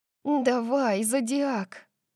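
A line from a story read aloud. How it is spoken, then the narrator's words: Whisper. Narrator (Russian): прошептала я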